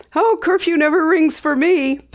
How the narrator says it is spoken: Penny laughed

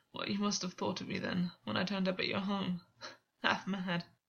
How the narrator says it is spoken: Gwyn said, laughing in spite of himself

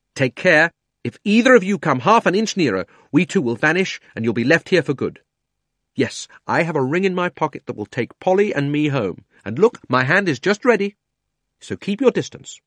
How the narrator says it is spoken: Digory grabbed Polly and shouted out

